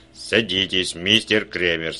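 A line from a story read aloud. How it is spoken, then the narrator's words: Plain. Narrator (Russian): сказал он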